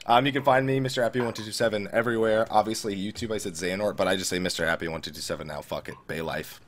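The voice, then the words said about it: Sick-sounding, low voice. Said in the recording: “I sound sick is because I am. So that's why my voice has been low this entire time.”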